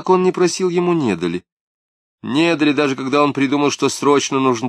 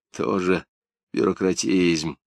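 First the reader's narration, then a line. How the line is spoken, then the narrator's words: Glum reply. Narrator (Russian): уныло ответил Жмакин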